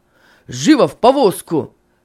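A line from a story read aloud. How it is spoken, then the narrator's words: Shouted. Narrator (Russian): крикнул Финиас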